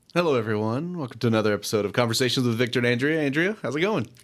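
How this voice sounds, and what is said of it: Polished podcast-host voice. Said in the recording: “I like your podcast voice... it changes... I sound like me, and then suddenly I turn into podcast”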